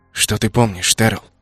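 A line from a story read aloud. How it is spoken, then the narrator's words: Hot whisper. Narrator (Russian): Сказанная горячим шепотом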